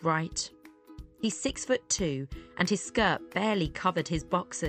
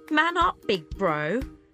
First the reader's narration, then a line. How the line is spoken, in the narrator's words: laughed